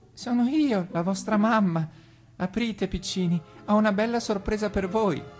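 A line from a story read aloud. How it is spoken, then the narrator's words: Sugary bleating voice. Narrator (Italian): belò il lupo, con una voce così dolce che sembrava zucchero filato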